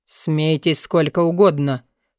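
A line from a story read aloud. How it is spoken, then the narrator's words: Through gritted teeth. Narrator (Russian): процедил Форси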